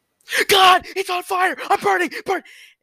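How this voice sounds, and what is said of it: Panicked screaming of a burning man. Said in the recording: “my best impression of a man on fire”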